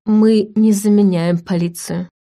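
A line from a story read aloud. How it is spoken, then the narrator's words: Calm objection. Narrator (Russian): спокойно возразил Войтых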